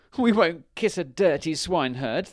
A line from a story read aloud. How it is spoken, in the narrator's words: they cried